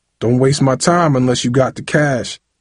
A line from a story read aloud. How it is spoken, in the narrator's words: Jupiter growled